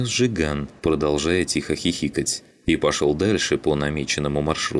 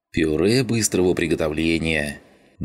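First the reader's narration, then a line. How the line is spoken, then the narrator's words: Pleased grunt, mouth full. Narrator (Russian): довольно хмыкнул Шум, уплетая завтрак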